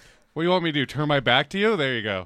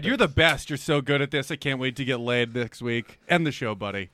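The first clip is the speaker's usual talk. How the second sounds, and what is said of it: Sarcastic delivery. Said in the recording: “I didn't do it with the best tone of voice. ... Sarcasm doesn't help”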